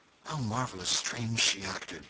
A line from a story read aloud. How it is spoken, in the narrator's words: he muttered